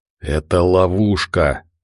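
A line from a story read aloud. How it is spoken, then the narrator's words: Hiss. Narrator (Russian): прошипел Кирилл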